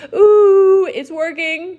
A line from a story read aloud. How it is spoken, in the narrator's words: Bailey shouted